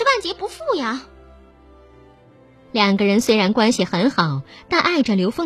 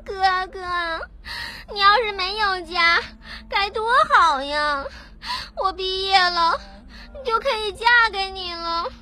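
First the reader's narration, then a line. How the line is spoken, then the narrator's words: Crying while speaking. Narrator (Chinese): 许婷哭着说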